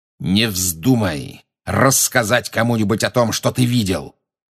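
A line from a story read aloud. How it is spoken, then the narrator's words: Growled. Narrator (Russian): прорычал Снег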